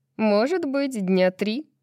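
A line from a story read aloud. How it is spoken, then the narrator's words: Laughing. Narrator (Russian): Брайс рассмеялась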